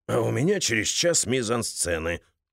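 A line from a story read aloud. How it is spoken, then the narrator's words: Muttering. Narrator (Russian): пробормотал Крис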